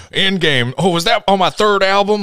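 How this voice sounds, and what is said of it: Imitates another person's voice. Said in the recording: “that was my wonderful Scott Stapp impression.”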